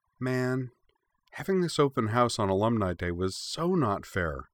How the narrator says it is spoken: she muttered underneath the more excited murmurs that were building among the students

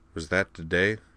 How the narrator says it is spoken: Mac mumbled

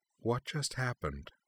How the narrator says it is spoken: asked Uchna, her voice hushed

